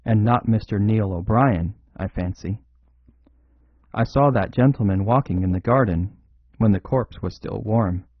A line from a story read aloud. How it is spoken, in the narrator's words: said Lord Galloway in a hoarse, harsh voice